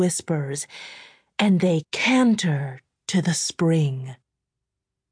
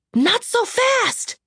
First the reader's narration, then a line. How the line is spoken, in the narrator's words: gasped Layla